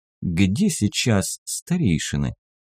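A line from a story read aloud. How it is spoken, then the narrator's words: Thoughtful. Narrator (Russian): задумчиво проговорил Элидар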